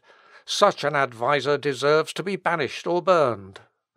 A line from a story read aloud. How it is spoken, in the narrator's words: the merchant, having somehow or other heard of the words so injurious to his interest, exclaimed